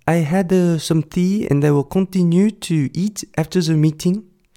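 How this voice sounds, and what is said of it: Put-on French accent in English. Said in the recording (Chinese): “当我在念 Anna 台词的时候，我就会用我最棒的法国人讲英文的口音来模仿”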